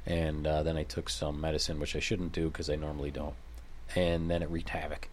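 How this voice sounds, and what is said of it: Congested, stuffy sinus voice. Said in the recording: “your voice is feeling a little out of sorts ... a lot of sinus pressure ... my sinuses have been crap ... you can hear it in my voice”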